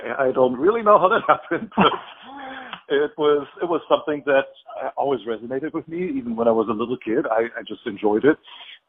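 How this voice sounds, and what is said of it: German accent. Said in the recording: “I grew up in Germany. That's the accent that you're hearing.”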